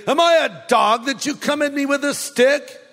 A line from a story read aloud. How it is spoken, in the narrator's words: He roared at David